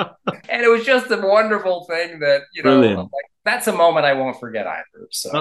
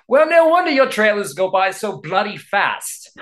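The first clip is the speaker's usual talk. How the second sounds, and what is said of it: Poor imitation of Michael Apted's accent. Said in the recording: “please excuse my horrible accent”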